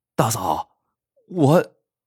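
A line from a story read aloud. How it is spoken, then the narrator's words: Embarrassed stammering. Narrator (Chinese): 张三很不好意思，结结巴巴的说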